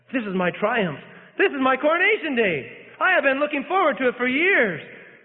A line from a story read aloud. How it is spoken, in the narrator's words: he exclaimed